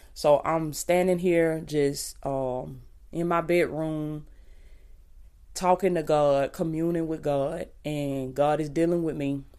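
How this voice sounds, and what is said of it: Raspy morning voice. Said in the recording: “my voice ain't all the way there... that morning voice, baby, it be sounding a little raspy. So if I sound a little raspy”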